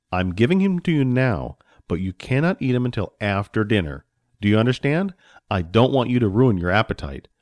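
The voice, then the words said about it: Stern fatherly voice. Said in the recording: “in a stern voice”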